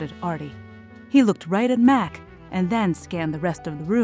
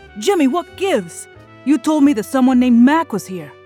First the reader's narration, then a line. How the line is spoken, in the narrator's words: Artie hollered